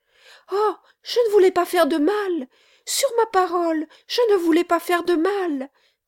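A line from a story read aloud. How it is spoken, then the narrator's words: Young servant girl crying out. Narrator (French): s'écria la petite servante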